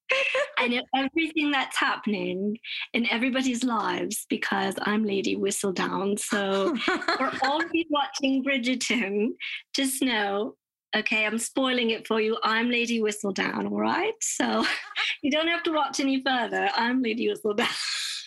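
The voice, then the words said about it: British accent, character impression. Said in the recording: “it is a British accent. Mm-hmm. And this is my impression of Lady Whistledown in Bridgerton.”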